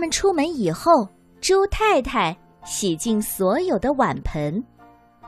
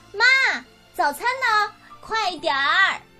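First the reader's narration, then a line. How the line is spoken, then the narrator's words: Two voices shouting loudly. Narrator (Chinese): 西蒙和帕克总是大声的喊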